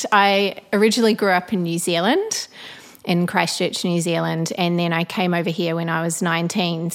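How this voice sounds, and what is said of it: Blended New Zealand-Australian accent. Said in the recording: “you kind of have a blended accent... a blended accent... haven't lost the accent... sometimes you do sound Australian though”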